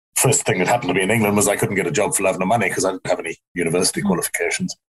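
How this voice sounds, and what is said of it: Sort of English accent. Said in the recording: “as you can hear, my accent from a South African one to an English one, well, sort of English”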